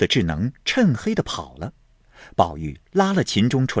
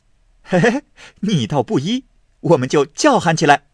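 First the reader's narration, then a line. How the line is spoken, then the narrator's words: Laughing. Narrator (Chinese): 宝玉笑道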